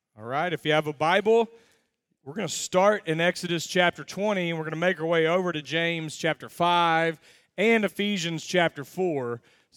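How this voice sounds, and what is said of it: Raspy voice after losing it. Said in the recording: “I've lost my voice over the last few days ... you're going to have to deal with kind of a raspy voice”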